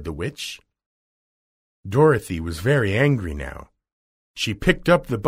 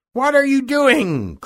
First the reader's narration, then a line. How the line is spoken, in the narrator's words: cried the witch